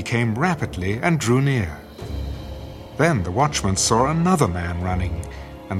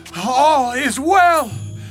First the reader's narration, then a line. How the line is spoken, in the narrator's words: called out and said to the king